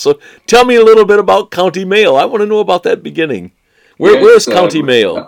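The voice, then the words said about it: American accent. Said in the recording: “this American accent”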